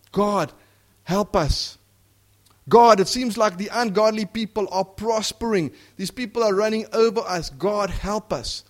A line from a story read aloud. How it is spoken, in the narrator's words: righteous people have cried out to God